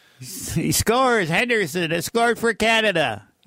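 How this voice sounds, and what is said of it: Imitates another person's voice. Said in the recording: “my Foster Hewitt impression”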